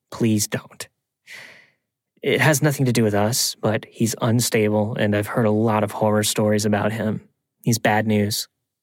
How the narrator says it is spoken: Tom sighed and said

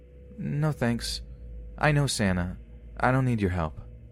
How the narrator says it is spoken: he replies flatly

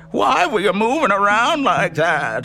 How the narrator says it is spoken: asked in a shriek I'd never heard before

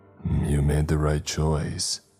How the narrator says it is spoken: he growled

